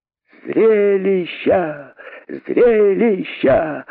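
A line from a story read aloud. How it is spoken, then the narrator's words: Joyful shouting. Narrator (Russian): закричали кролики радостно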